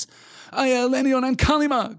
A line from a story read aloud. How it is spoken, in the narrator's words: cried Frodo once again behind him